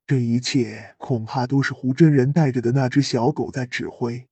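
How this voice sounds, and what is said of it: Quiet, low reminding voice. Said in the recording (Chinese): “药老小声提醒说”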